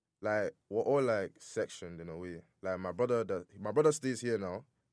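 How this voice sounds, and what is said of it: British London-sounding accent. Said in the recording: “You sound like you're from London. ... I would have thought you were British.”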